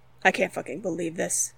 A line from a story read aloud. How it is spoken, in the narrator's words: Derek muttered under his breath